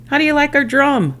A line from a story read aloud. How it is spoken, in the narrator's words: Boomer yelled